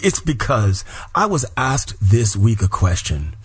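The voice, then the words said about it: Enthusiastic, bombastic delivery. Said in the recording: “I sound so enthusiastic ... I'm feeling so fantastic ... my voice is boom bombastic”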